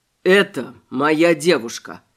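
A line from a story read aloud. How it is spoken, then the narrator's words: Dry and calm. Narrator (Russian): сухо и спокойно сообщил Шарат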